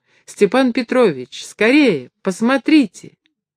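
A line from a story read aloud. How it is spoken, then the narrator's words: Ringing joyful shout. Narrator (Russian): звонкий голос Лизы, которая радостно закричала ему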